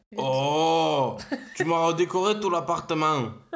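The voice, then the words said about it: Deep manly voice, southern French accent. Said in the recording (French): “J'essaie de faire une voix virile ... Tu peux faire l'accent du sud. ... Là, t'as fait combo viril et du sud ... d'outre-tombe ... On, dirait, une bête sauvage.”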